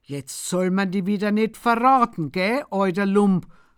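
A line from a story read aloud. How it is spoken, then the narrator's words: Grunting. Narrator (German): grunzt der Bichler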